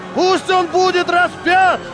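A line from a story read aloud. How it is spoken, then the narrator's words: Crowd shouting louder. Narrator (Russian): толпа кричала все громче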